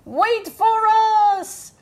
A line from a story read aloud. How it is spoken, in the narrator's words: shouted Little Fish